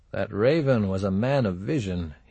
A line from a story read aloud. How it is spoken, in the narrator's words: mumbled